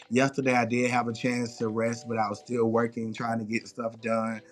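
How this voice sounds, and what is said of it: Tired, drained voice. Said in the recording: “I'm still a little tired. As y'all can hear, my voice is still a little drained from this weekend”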